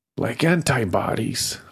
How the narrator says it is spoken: wheezed, feeling like the fire inside had eaten up all my oxygen

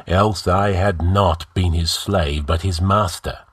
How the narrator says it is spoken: grinned the Stygian savagely

